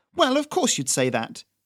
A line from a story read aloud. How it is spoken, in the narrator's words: Doris said indignantly